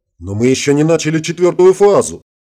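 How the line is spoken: Indignant exclamation. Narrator (Russian): возмущенно воскликнул майор

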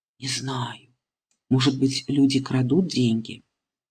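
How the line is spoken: Quiet mother's voice. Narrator (Russian): Мама тихо говорит

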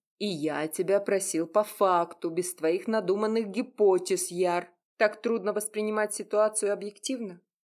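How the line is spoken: Angry growl. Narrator (Russian): злобное рычание

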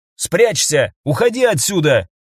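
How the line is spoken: Shout. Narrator (Russian): крикнул

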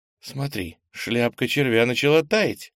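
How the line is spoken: Exclaimed. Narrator (Russian): воскликнула Ира

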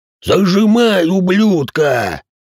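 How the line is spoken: Roared. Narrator (Russian): проревел инвалид

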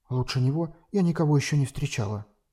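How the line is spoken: Quiet but firm. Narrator (Russian): тихо, но твердо произнесла она

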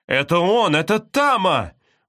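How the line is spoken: Exclaimed. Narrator (Russian): воскликнул зеленый рюкзак

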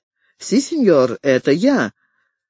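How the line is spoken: Forced cheerfulness. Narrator (Russian): Он старался говорить весело

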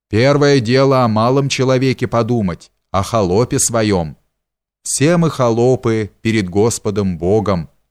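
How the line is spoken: Stern concluding tone. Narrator (Russian): строго окончил он

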